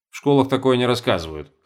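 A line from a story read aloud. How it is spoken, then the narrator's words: Wry snort. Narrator (Russian): хмыкнул Чертанов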